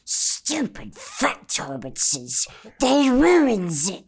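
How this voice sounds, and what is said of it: Gollum character voice impression. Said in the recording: “my Gollum impression ... That's actually really fucking good.”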